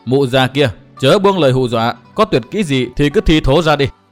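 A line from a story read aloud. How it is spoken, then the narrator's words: Laughing loudly. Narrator (Vietnamese): Chàng cười to nói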